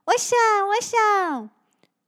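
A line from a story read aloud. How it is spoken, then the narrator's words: Happy shout. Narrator (Chinese): 小光 开心地 叫着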